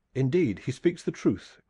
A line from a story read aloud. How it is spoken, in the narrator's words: cried the official